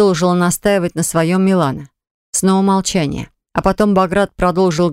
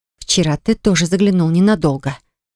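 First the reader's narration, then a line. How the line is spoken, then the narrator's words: Sarcastic, through gritted teeth. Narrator (Russian): извительно процедила она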